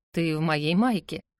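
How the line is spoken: Tired reply. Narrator (Russian): отвечает он устало

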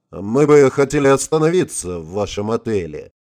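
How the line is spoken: Gloomy. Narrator (Russian): мрачно ответил ему Олег

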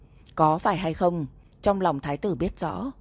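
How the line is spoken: Cold voice. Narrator (Vietnamese): Độc Cô Tuyệt giọng lạnh lùng

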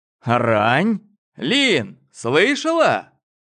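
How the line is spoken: Shout across the hall. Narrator (Russian): крикнул Гоша через весь зал

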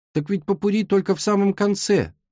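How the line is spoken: Exclaimed. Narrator (Russian): воскликнул Эрни

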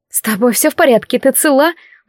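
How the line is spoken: Worried asking. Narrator (Russian): взволнованно спрашивала Алекс

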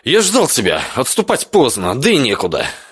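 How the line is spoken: Wry snort. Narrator (Russian): хмыкнул

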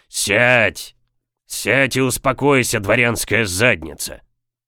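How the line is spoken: Barked. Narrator (Russian): рявкнул капитан

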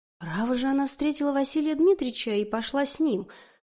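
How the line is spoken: Plain. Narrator (Russian): сказал Николай

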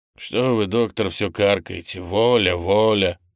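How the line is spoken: Rude interruption. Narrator (Russian): грубо обрывает юноша

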